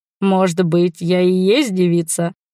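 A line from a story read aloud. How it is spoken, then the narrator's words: Smirking grunt. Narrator (Russian): хмыкнул пан Криш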